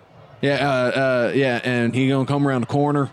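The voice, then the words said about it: Southern accent. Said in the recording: “Sorry, I slipped into a different southern accent.”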